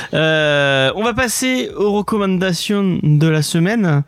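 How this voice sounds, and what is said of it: Speaks with a put-on accent. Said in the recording (French): “je ne sais pas pourquoi je prends cet accent.”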